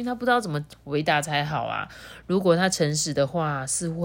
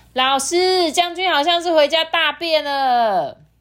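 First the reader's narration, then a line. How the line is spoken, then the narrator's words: Shouting. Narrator (Chinese): 有人大喊说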